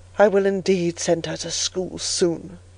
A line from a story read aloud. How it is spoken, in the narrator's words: murmured Mrs